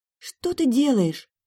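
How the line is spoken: Frightened whisper. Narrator (Russian): испуганно прошептала София

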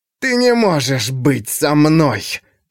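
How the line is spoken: Hissing. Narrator (Russian): прошипел Рулад

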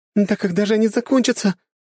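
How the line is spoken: Desperate, breathless exclamation. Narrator (Russian): в отчаянии воскликнула Кьялта, уже начавшая задыхаться

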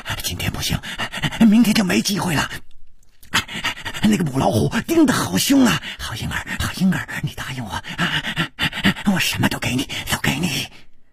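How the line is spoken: Heavy panting. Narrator (Chinese): 师传宗的喘息声更粗了

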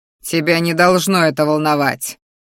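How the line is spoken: Growled. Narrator (Russian): Вновь рыкнул он

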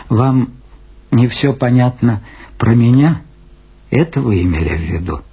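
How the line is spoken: Calm. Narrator (Russian): спокойно сказал Лунин

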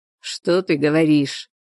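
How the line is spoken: Sarcastic, composed. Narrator (Russian): язвительно сказал он, овладев собой

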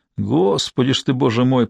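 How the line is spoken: Muttered. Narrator (Russian): пробормотал второй

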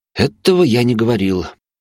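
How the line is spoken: Sigh. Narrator (Russian): вздохнул

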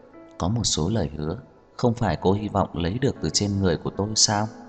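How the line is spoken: Soft smiling. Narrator (Vietnamese): Như Mạt khẽ mỉm cười

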